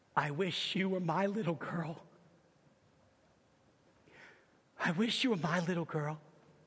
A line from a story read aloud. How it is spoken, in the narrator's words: Leonard whispered softly